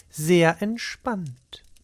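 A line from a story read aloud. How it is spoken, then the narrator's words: Plain. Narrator (German): sagte Beate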